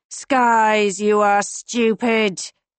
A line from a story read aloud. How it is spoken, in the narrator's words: Marcus groans